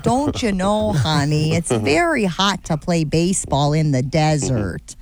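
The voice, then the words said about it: Exaggerated Wisconsin mom accent. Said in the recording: “now all of a sudden you've got the Wisconsin accent. You're the mom from Bobby's ... World.”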